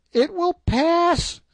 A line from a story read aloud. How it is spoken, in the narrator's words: cried